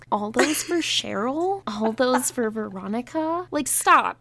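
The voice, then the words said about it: Inaccurate impression of a TV character. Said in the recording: “That's not what Betty sounds like. Where did this impression come from? ... it's how, like, Betty sounds like in my head ... Does have an annoying voice, and I agree. I just don't think your impression sounds like it.”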